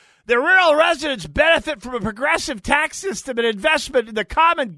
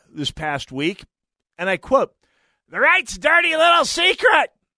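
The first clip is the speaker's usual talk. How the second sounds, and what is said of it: Imitates another person's voice. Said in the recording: “That's my Aisha Gomez impression.”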